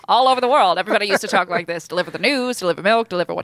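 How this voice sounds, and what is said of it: Put-on transatlantic accent. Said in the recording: “It's called a transatlantic accent”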